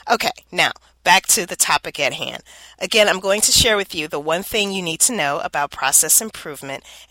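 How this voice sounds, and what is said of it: Nasal, scratchy congested voice. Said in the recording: “I am suffering with seasonal allergies ... I sound a little nasally or my throat is scratchy”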